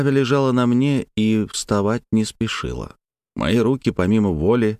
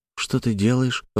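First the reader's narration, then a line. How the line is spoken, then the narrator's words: Timid question. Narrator (Russian): робко спросила она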